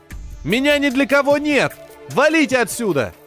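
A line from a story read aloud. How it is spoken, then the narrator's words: Shouted. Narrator (Russian): крикнул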